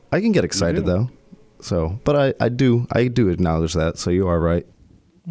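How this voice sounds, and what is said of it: Flat monotone unexcited voice. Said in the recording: “you don't sound super excited about anything, and I think it's just your voice ... monotone voice, kind of ... droopy doggy”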